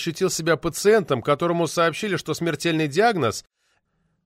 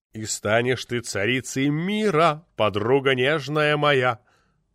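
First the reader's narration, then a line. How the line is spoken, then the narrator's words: Deep bass voice. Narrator (Russian): снова забасил Попекян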